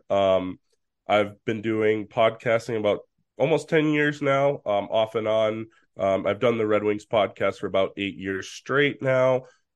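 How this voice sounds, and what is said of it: Voice sounds off, allergy-affected. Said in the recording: “my voice is kind of where it is right now in terms of the allergies”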